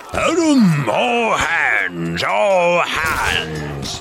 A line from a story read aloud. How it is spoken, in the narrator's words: he roared in a voice of thunder